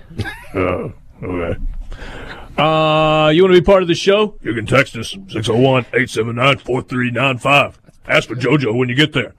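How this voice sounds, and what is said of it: Gravelly Ed Orgeron impression. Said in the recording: “the ogre accent ... That's pretty good ... That's pretty strong ... People sometimes say it's not quite gravelly enough”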